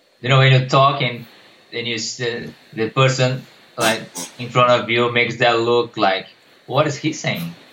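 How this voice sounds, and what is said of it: Brazilian accent. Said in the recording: “you clearly don't have a sexy Australian accent. You have a sexy Brazilian accent.”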